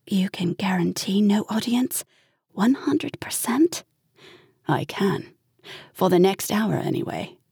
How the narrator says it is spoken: Liza murmured

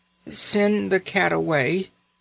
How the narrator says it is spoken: she said feebly

